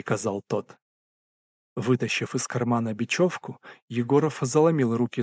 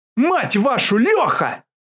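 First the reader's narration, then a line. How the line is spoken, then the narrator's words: Yelled with full force. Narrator (Russian): Из всех сил заорал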